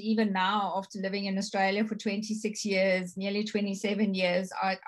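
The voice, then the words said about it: Strong non-Australian accent. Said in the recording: “my accent is strong”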